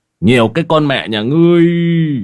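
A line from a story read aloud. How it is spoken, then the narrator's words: Wailing, crying. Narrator (Vietnamese): Lão Đạo Huyền gào khóc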